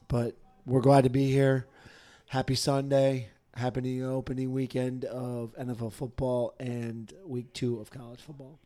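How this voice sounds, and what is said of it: Unwell, weaker than usual voice. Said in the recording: “a little under the weather here again ... sorry if my voice is not as good as it usually is”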